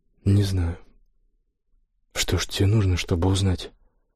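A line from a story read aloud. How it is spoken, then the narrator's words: Whisper. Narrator (Russian): прошептал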